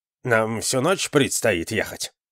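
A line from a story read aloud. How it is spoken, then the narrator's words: Grumbled. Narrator (Russian): пробурчал Акимас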